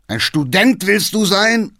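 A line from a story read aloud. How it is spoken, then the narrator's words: Old man shouting. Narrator (German): schrie der Alte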